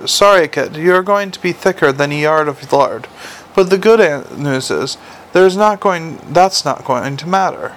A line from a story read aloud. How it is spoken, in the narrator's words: kindly god had said